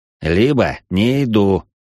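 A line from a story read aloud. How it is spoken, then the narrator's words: Forced out, numbed. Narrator (Russian): выдавил я, с трудом преодолевая оцепенение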